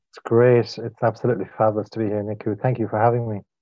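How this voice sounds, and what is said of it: Irish accent. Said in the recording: “you have the most incredible accent ... I'm in the west of Ireland. I'm in Galway”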